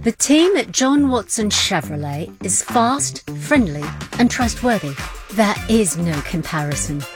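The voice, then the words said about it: Put-on English accent. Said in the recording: “That customer didn't have an English accent”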